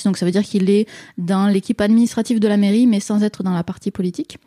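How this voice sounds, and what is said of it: Slight southern French accent. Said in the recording (French): “On l'entend, l'accent... petit accent du sud”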